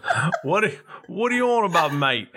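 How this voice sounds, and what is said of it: Put-on British accent. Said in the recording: “Where's your British accent, whatever that means? ... Oh, there it is.”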